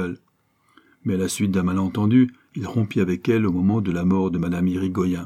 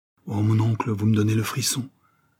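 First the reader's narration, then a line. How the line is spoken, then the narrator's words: Exclaimed. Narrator (French): s'écria Laurent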